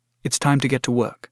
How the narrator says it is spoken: said gently

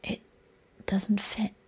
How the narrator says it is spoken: I said quietly

